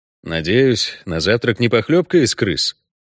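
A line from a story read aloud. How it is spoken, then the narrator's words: Gloomy inquiry. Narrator (Russian): мрачно осведомился Геральт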